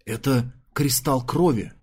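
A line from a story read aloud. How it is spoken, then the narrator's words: Breathed out. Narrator (Russian): выдохнул Нелли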